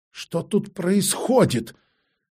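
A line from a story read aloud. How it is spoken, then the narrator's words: Strained, forced out. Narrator (Russian): выдавила из себя Алисанда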